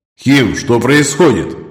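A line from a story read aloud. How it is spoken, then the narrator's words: Silent mental shout. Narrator (Russian): мысленно выкрикнул Егор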